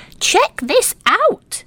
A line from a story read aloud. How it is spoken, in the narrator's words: Little Squirrel called excitedly